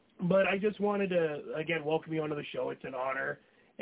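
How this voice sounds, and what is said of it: Hoarse voice. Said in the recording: “my voice is a little hoarse right now ... my throat's a little hoarse”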